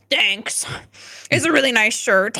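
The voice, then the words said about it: Imitates another person's voice. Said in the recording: “that's a really good Bob impression”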